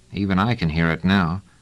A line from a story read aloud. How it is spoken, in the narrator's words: Treviz said dryly